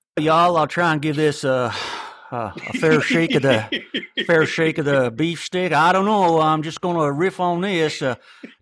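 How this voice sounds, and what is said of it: Attempted Texas drawl accent. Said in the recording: “please do your best Texas drawl ... I didn't even know what state that was. It's probably not Texas. It's I don't know, Alaska or something”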